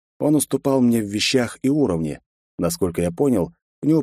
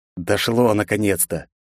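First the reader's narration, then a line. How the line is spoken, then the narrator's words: Irritated curt remark. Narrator (Russian): раздраженно бросил я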